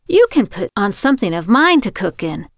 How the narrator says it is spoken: Florence exclaimed

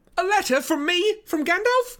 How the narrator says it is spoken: cried Frodo

